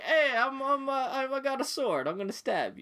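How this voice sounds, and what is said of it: Imitation voice sounding like Mario. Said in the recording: “He sounds like Mario.”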